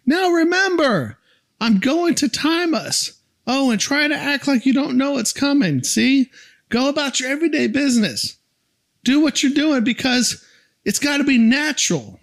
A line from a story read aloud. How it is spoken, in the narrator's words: Mike yells